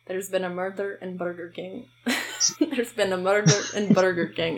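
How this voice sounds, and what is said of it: Attempted Scottish accent. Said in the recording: “why does it sound like I have a Scottish accent ... tell me if I actually sound like I have a Scottish accent ... It does.”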